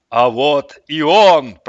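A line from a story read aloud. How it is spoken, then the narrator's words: Booming, hugely amplified voice. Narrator (Russian): прогремел в наступающей было тишине тысячекратно усиленный голос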